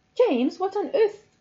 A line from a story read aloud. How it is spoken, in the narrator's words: I exclaimed